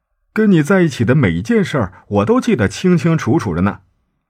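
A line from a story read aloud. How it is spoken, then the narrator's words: Joking. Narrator (Chinese): 他开玩笑的问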